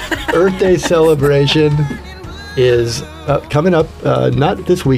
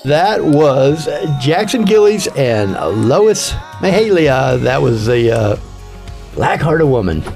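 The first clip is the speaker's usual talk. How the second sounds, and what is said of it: Radio DJ voice. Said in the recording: “doing my DJ voice”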